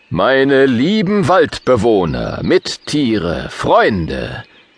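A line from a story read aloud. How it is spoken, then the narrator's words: Booming voice. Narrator (German): rührt König Derius mit dröhnender Stimme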